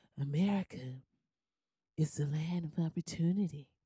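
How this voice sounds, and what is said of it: Old, sleepy-sounding man's voice. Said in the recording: “this old sleepy hollow voice ... this is how he sounds”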